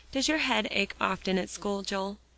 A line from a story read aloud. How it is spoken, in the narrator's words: asked softly